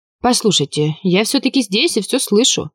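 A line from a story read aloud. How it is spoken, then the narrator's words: Irritated remark. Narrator (Russian): раздраженно заметила я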